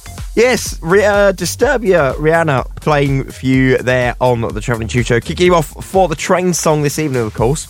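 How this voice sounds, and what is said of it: Sick, strained voice. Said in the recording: “Could you tell I'm ill? ... as you can probably hear in my voice, I am rather ill at the moment. My voice will probably fail on me”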